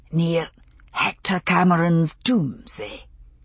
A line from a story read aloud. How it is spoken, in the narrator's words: He asked, his voice pitched only just above a whisper